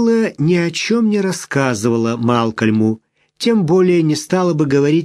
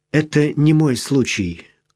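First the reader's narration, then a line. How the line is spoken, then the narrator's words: Timid. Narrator (Russian): робко произнесла она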